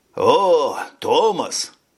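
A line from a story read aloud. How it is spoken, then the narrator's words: Exclamation. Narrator (Russian): воскликнул старшина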